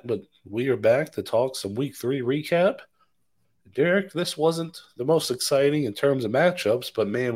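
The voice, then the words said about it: Raspy voice. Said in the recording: “Do apologize for the raspy voice. My throat's feeling a little bit under the weather”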